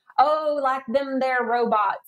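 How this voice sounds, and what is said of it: Exaggerated Southern accent. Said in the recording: “expand upon my uh, uh, my Southern accent to tell you how my grandparents would talk”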